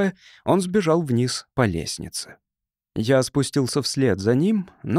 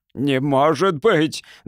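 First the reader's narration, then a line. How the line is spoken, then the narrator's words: Roaring. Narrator (Russian): взревел генерал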